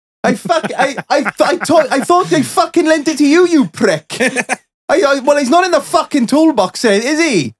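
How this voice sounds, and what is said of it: Put-on Welsh accent. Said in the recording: “I'll do my best Welsh accent here”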